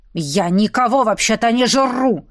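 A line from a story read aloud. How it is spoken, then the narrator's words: Growling. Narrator (Russian): рыкнул герцог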